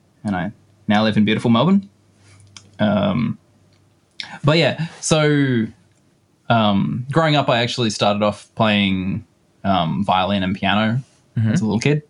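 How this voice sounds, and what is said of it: Australian accent. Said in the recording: “as you might have guessed from the accent, from Australia”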